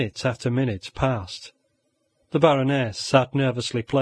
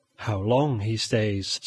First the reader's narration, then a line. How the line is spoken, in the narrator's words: said she